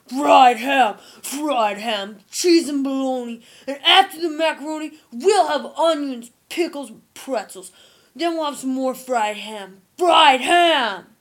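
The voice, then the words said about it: Exaggerated football accent. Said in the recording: “Football accent, a whole lot worse.”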